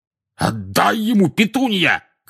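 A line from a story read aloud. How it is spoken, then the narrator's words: Shout. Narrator (Russian): крикнул дядя Вернон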